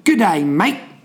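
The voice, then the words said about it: Put-on Australian accent. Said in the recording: “Whether that was a good or bad accent”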